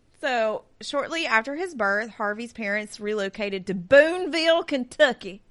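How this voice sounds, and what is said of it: Put-on Kentucky accent. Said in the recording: “That was a great Kentucky accent.”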